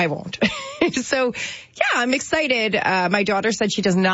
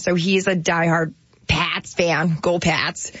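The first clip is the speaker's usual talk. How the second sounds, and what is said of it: Put-on Boston accent. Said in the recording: “So that's my Boston accent. Isn't it good? ... That was the best Boston accent I've ever heard.”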